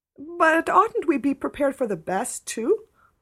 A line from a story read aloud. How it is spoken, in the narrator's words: pleaded Anne